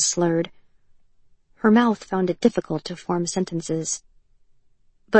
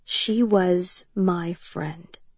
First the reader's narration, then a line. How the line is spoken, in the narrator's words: the other girl said slowly